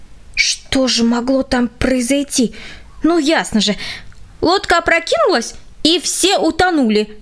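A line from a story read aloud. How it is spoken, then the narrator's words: Exclaimed. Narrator (Russian): воскликнул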